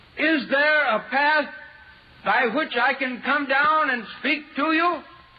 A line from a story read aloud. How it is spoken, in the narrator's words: I shouted